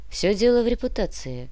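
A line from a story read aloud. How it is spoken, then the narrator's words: Cold explanation. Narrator (Russian): холодно объяснила Олеся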